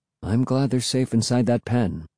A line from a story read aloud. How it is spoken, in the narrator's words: Dad said softly